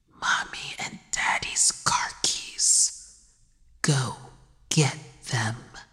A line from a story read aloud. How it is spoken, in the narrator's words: The child killer whispered